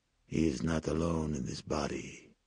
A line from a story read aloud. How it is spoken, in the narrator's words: hissed